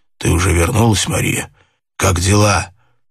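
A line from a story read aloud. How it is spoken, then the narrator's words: Hoarse anxious question. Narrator (Russian): Хриплым, беспокойным голосом он спросил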